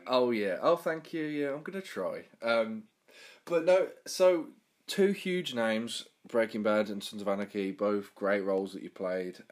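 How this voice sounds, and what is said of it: Birmingham English accent. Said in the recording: “how um, common and um, disgusting my accent is ... the area where I'm from, Birmingham, was voted the worst accent in the UK”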